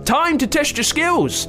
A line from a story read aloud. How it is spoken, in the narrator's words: yelled Nate